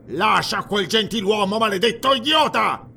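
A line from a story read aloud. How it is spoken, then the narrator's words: Prefect yelling. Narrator (Italian): urlò il prefetto Dionus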